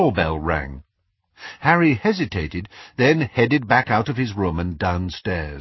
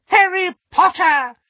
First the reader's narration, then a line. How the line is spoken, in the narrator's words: squeaked an excited voice